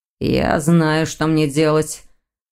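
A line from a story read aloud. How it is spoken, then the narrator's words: Confused grumble. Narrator (Russian): растерянно проворчал Дамиан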